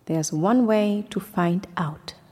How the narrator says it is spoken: said the hyena

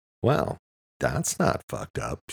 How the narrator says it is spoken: she said, in a sarcastic, upbeat tone

